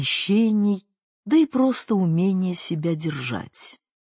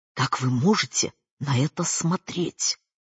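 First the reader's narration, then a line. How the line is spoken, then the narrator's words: Whispered question. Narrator (Russian): шепотом спросила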